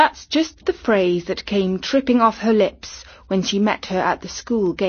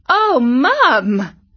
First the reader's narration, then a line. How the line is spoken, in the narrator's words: exclaimed Katie